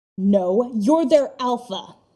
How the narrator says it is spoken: Styles snaps

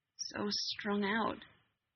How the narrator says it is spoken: he murmured, low, odd timbre of his voice

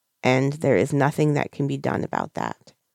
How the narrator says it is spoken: Granny says gently

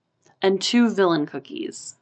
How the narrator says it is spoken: Marinette said

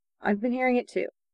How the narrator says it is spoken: he said quietly

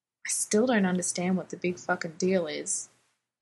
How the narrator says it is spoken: Dean muttered to Dean

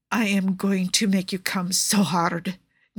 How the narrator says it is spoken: Nikki rasps

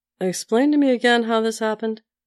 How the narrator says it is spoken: said Sam

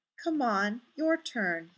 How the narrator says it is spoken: murmurs

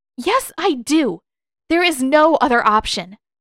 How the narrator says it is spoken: snaps

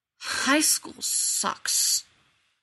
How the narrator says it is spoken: John grumbled

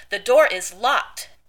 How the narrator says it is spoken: Dean says triumphantly

